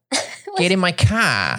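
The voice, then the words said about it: Boston accent. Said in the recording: “But in Boston, they say car.”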